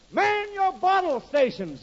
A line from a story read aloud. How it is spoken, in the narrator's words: the boss yells